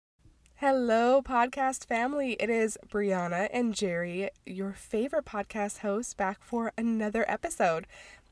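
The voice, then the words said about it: Deep, raspy, congested voice. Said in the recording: “both Jerry and I have colds right now. I have it worse than he does ... my voice sounds a little funky, extra deep and raspy ... I'm kind of totally congested”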